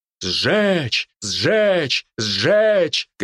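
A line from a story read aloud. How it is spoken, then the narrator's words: Crowd shouting. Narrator (Russian): кричали люди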